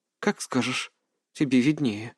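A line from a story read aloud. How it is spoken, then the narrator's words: Sighing. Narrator (Russian): вздохнула Ханако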